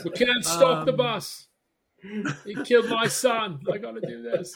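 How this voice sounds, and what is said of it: Bad put-on British accent. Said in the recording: “That's a pretty good Idris Elba. ... a bad British accent.”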